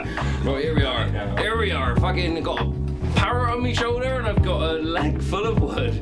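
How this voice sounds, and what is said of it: Pirate voice, hard to understand. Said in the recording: “We didn't understand what you were saying when you were in pirate mode”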